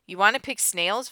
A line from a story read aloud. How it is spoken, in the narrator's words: Vanessa asked